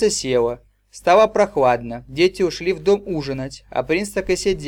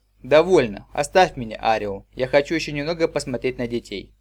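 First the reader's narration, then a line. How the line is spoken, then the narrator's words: Sighing. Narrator (Russian): вздохнул и сказал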